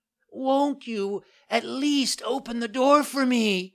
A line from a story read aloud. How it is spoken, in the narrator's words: cried Pinocchio in a beseeching voice